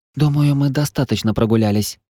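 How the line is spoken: Whisper. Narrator (Russian): прошептала рыжая

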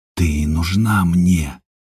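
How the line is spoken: Hoarse breathless. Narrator (Russian): хрипло выдохнул Степан

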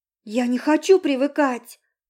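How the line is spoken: Exclamation. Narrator (Russian): воскликнула Наташа

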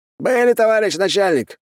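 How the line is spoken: Cheerful shout from crowd. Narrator (Russian): бодро выкрикнул кто-то из толпы

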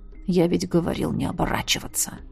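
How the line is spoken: Quiet, without hatred. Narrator (Russian): Тихо сказал он, но без прежней ненависти

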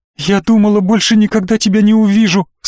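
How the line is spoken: Sobbing. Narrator (Russian): всхлипнула Настя

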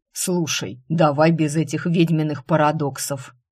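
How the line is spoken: Demon snorting. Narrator (Russian): фыркнул демон

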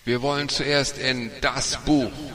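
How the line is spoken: Excited call. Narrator (German): aufgeregt rief

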